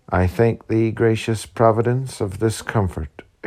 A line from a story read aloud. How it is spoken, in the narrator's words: exclaimed Helen